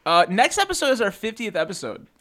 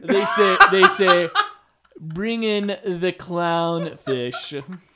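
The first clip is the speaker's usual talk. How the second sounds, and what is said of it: Imitates another person's voice. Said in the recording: “my Adam Sandler impression”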